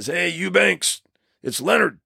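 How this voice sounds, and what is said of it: Gravelly macho impersonation, poorly done. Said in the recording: “he's got this gravelly voice ... I always do a horrible impersonation ... he's very macho”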